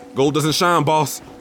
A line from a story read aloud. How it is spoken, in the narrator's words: I yelled back